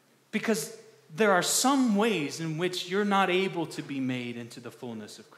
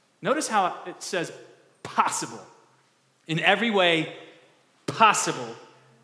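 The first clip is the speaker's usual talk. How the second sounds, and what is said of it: Put-on Boston accent. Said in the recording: “I don't know why I'm saying that with a Boston accent.”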